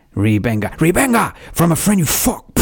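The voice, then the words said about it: Put-on Cuban movie gangster accent. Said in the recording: “It sounded like an Al Pacino film ... I think it sounds like you were channeling Al Pacino anyway ... doing a Cuban accent ... It was Scarface”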